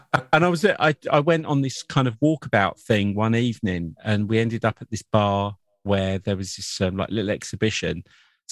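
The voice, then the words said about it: English accent. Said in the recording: “the English accent, you know, gets picked up ... they always ask if you're Australian”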